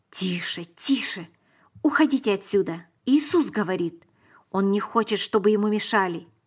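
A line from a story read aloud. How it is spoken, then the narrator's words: Whispered. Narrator (Russian): прошептали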